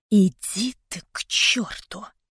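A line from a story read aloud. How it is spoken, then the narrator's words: Angry hiss. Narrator (Russian): прошипела я злобно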